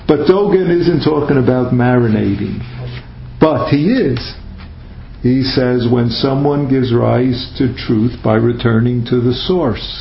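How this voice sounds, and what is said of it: New York accent. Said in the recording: “are you saying sauce or source? ... my New York accent becomes a problem”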